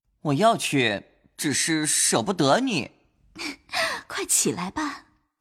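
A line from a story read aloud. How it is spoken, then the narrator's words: Smiling. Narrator (Chinese): 宝玉笑道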